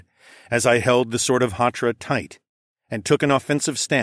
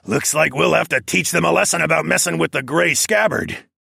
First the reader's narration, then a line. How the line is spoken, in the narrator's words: one of the human men growled